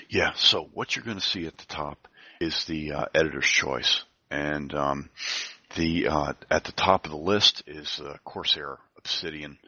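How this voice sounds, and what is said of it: Hoarse voice. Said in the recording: “I'm going hoarse”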